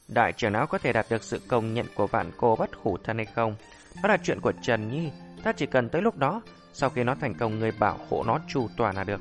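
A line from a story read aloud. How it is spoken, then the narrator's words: Smiling. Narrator (Vietnamese): Thanh Diên Tịnh mỉm cười nói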